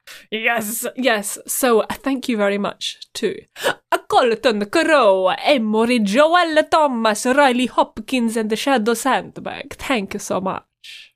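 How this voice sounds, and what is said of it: Put-on Italian accent. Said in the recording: “I'm so ready to read the five dollar names in an Italian accent.”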